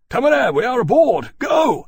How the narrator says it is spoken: he shouted

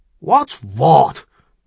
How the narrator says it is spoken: retorted irritably

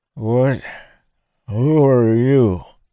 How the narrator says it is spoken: said in a slurred voice, most of his teeth missing

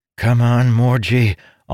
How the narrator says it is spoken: Amandal groaned

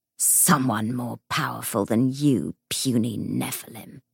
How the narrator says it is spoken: snarled the ghost

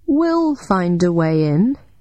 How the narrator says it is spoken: I said slowly

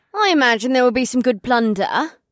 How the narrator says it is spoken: said in a cheery voice

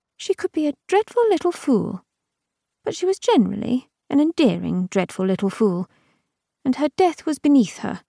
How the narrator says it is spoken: Her voice was light and a trifle strange when she said

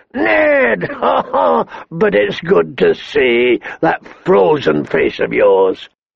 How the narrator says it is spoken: The king looked him over, from top to bottom and laughed

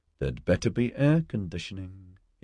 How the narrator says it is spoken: he muttered

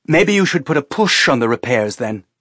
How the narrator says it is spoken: Teresa said harshly

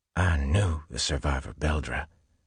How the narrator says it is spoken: he whispered harshly

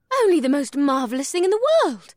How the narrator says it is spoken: Ibsith breathed

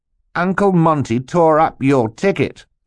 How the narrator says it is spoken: Klaus replied triumphantly

